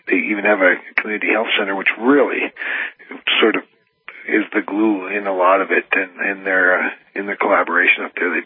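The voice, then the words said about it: Worn-out, hoarse voice. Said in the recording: “your voice is a little worn out ... It's been brutal. I have a little bronchitis as well ... I feel much better than I sound”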